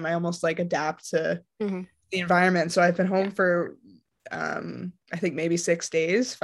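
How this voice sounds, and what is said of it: Canadian accent. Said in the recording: “So you're Canadian, obviously, can hear it, the accent.”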